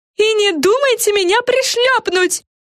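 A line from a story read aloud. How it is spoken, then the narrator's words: Yell. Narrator (Russian): завопила Френ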